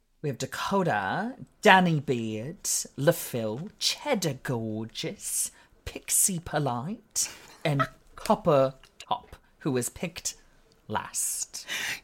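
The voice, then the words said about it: Put-on accent, sounding pretty good. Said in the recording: “Your accent's actually sounding pretty good. ... You're getting better. Oh my God, it's going to get stronger as the season goes on.”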